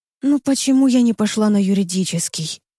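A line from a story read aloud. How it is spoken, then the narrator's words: Sighing, to herself. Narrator (Russian): спрашиваю саму себя, вздохнув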